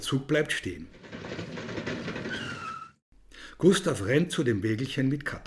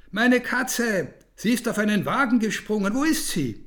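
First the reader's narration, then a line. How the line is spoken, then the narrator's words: Frantic shouting. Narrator (German): Er läuft dem Blaubeer-Express nach und schreit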